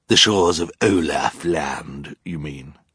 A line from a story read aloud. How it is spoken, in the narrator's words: Count Olaf growled